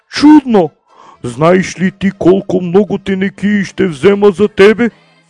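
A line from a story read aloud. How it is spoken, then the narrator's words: Excited exclamation. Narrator (Bulgarian): он въодушевено възкликнал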